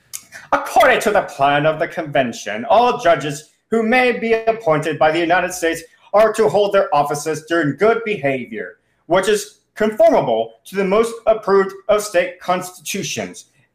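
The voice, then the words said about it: Put-on accent voicing Alexander Hamilton. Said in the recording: “as expressed by Alexander Hamilton ... should I do an accent again, Ron, for entertainment purposes? I think I will.”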